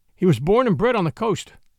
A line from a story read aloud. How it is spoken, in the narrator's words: I answered